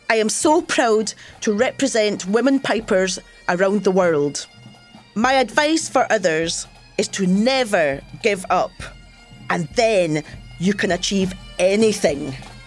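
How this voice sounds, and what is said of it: Scottish accent, rolled R sounds. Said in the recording (Spanish): “¿Notaste su acento? ¿Oíste cómo hace rodar algunas R y pronuncia el número 8 con un sonido E más corto? ... Escocia”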